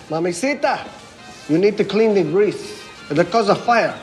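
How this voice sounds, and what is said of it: Convincing put-on accent. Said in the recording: “That's a really good accent.”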